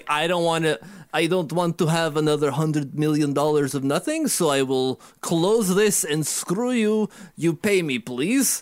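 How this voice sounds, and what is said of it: Put-on Russian accent. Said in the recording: “my best Russian accent.”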